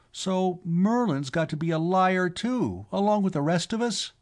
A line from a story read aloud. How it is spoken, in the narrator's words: Sylvie cried